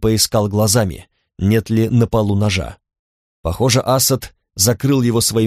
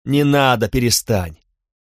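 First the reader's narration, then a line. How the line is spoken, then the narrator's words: Sharp scolding woman. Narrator (Russian): прикрикнула женщина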